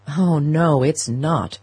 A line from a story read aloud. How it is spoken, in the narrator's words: her son groaned